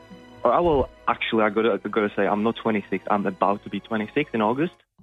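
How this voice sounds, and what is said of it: Czech accent. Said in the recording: “I sense an accent. I love an accent. ... I'm from Czech Republic.”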